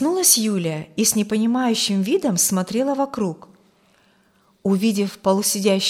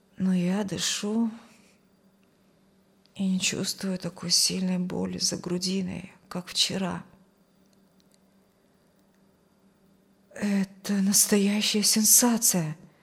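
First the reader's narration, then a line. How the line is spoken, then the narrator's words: Muttering. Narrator (Russian): пробормотала медсестра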